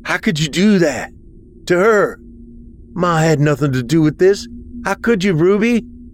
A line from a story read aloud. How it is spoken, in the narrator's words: I shouted